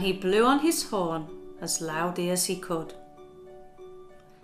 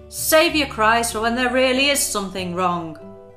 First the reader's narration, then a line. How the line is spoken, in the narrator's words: shouted